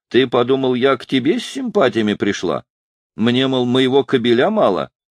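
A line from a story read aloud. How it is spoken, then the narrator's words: Cheerful. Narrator (Russian): весело сказала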